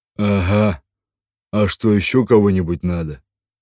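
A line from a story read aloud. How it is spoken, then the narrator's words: Normal deep bass voice. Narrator (Russian): Мажордом совершенно нормальным голосом пробасил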